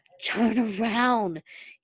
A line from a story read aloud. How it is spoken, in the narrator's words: he cried urgently